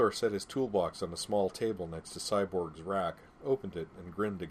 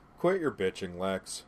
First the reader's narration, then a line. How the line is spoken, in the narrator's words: Cyborg said cheerfully